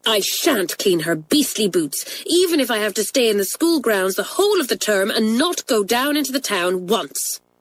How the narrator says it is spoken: said Pat angrily

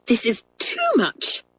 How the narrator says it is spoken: said Miss Kennedy angrily

